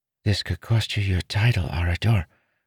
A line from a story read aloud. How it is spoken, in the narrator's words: Renarin whispered